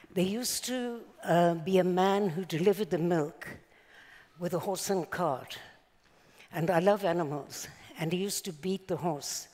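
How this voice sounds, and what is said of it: South African accent. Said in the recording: “I'm not exactly an Israeli accent. So I was born in South Africa”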